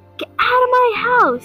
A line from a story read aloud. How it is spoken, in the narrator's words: the ghost popped out and screamed and yelled